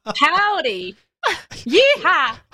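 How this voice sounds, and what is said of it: Put-on American cowboy accent. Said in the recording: “Could you please do an American accent? ... You don't want to hear my American accent.”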